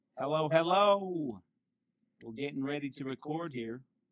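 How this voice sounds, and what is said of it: Sudden country accent. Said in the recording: “a country accent all of a sudden”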